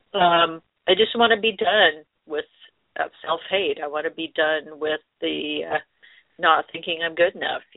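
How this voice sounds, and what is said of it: Choked-up, emotional voice. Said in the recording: “I'm getting a little bit choked up”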